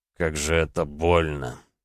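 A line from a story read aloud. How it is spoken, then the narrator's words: Moaning in pain. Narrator (Russian): простонал он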